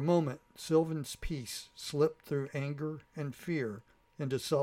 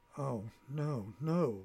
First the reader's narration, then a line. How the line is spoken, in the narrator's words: whispered Sylvan